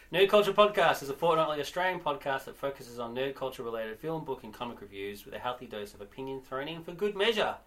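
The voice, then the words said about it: Very fast speech. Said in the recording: “I said that very fast”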